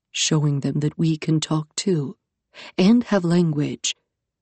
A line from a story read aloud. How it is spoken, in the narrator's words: Iskander murmured